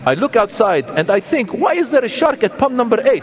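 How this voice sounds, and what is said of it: Put-on Jordanian accent. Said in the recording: “that's a Jordanian accent”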